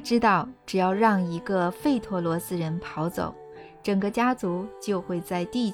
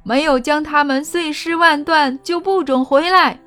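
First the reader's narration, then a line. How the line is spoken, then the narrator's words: Monk roaring. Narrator (Chinese): 僧侣大吼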